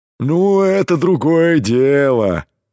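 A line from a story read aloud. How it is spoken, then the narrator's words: Deep rumbling voice. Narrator (Russian): пробасил Кром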